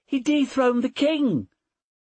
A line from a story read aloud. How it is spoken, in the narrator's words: the boy cried enthusiastically